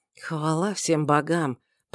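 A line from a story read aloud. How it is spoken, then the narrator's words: Whisper. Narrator (Russian): прошептал Шамит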